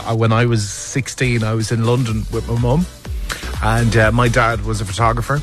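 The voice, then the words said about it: Irish accent. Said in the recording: “my little Irish accent”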